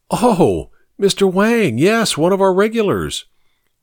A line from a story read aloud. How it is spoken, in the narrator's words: the librarian exclaimed